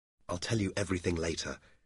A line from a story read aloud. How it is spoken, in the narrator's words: Dobbin said quietly